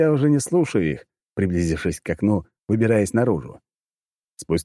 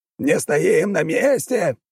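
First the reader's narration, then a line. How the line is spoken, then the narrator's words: Barked. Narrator (Russian): рявкнул другой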